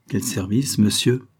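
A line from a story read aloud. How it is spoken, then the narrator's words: Rather coldly. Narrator (French): répondit assez froidement Savary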